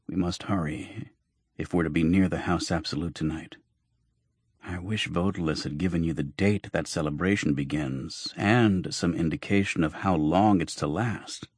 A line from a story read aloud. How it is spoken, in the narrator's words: Jonas, who had been ill at ease since we had set out, muttered